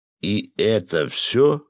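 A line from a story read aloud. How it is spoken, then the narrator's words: Disappointed drawl, fisherman. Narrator (Russian): разочарованно протянул рыбак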